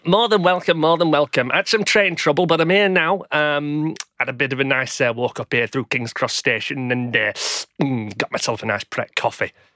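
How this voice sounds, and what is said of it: Unusual put-on character accent. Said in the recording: “that's an unusual accent”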